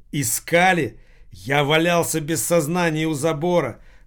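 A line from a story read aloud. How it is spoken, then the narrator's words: Shouting. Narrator (Russian): закричал Махмуд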